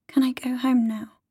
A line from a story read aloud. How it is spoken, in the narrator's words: Tallulah says very quietly